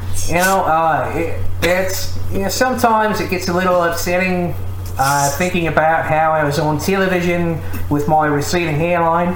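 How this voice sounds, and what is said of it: Put-on New Zealand accent. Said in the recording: “Can you do a New Zealand accent ... It's good. ... That's good.”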